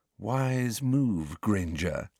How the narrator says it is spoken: breathed Malfoy

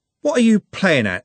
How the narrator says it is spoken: said Trev angrily

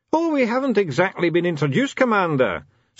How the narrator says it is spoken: said the dwarf cheerfully

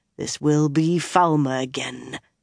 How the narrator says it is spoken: Domon growled at the air

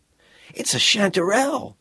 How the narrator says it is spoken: he exclaimed

